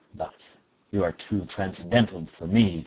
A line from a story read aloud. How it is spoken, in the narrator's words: growled Ossipon with moody concern